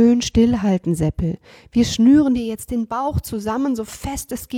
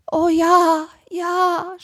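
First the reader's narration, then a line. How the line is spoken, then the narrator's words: Groan. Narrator (German): stöhnte Seppel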